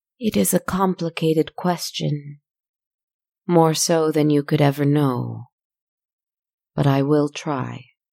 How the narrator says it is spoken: With a musical sigh, it thought for a moment before replying

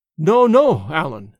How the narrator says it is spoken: said James

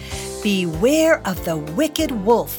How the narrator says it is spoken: she said

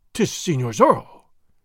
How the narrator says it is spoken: he exclaimed

